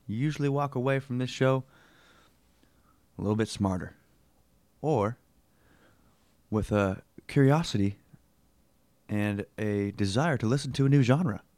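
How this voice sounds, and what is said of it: Put-on Southern drawl. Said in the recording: “why the Southern drawl”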